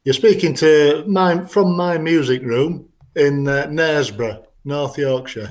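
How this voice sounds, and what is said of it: Yorkshire English accent. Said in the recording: “he sounds very Yorkshire." Is that right? ... That's right. I'm originally from Sheffield, around the Barnsley area.”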